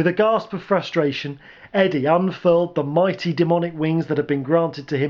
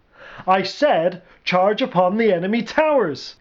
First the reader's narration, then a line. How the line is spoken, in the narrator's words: yelled